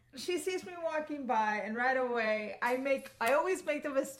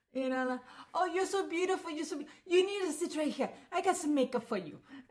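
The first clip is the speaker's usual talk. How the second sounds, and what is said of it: Bad put-on Israeli accent, Asian-Italian sounding. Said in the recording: “my accent's gonna be really bad. She's supposed to be Israeli, but she's gonna sound Asian slash Italian ... you're about to do a Jewish accent, but you're not gonna do it right”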